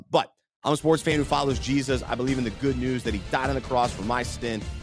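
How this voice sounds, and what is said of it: Sick, strained voice. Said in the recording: “I'm sick today ... my voice is not at its best”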